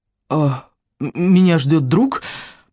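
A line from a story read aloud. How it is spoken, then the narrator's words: Hoarse rasp. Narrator (Russian): прохрипел Райан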